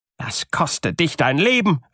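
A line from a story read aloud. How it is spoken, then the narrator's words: Bride calling out. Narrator (German): rief die Braut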